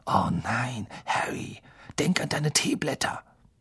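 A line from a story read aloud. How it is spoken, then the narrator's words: Whispering. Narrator (German): Lavender und Parvati flüsterten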